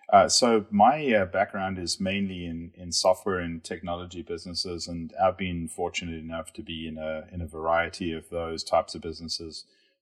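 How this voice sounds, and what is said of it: South African accent. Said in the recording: “You can probably tell from the accent, I did not grow up in Kansas. So I was based in South Africa”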